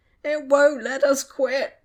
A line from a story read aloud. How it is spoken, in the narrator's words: Tom whined